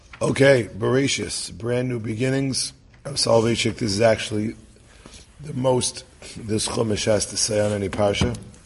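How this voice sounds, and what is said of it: Hoarse, croaky voice. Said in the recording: “my voice is still in the post-Simchas Torah blues ... Hopefully, I'll still be able to croak through it.”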